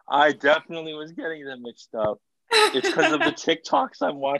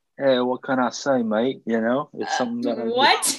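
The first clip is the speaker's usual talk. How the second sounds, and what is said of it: Put-on Australian-sounding accent. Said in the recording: “Isn't that Australian? ... I've completely forgotten how to do a British accent. ... I can only think in Australian”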